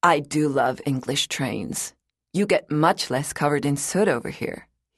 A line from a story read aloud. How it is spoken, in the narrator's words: he said